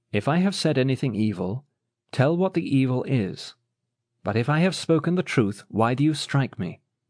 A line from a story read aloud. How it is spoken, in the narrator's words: Jesus answered the officer calmly and quietly